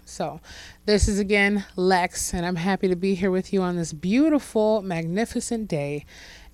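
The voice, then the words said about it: Slightly hoarse, rough voice. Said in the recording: “my voice is a little bit snagged, shall I say, beyond what it could be. I don't know if I've been screaming”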